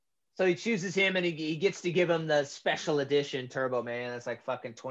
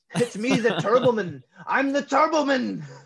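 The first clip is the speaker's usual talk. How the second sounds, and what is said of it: Modulated voice with Austrian accent. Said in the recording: “a voice modulator on the suit. And then I love what it does to his Austrian accent.”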